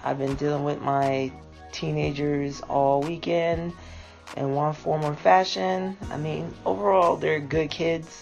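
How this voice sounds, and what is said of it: Tired-sounding voice. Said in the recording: “I'm tired, and yeah, you might hear it in my voice.”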